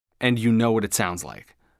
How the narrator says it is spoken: I said, too harshly

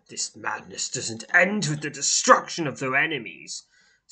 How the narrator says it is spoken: says Owl, his lips curling into a snarl as he speaks to you in low tone

